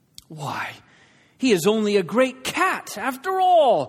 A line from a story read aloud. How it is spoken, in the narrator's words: cried